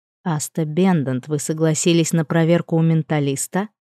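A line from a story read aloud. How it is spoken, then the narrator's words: Deadened, dreading voice. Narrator (Russian): спросил он омертвевшим голосом, явно предчувствуя худшее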